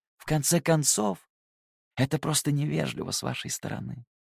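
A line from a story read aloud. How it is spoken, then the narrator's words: Gentle interruption. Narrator (Russian): мягко оборвал его Луций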